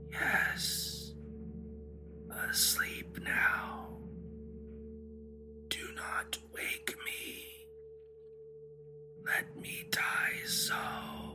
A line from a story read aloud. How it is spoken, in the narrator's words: in a barely audible whisper, issued the words